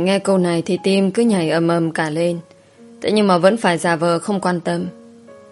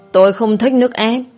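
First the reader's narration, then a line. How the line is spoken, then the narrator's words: Annoyed shout. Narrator (Vietnamese): bực bội rồi quát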